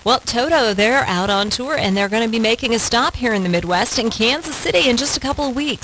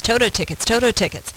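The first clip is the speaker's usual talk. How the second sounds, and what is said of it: Phrase repeated very fast. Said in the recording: “Say that fast.”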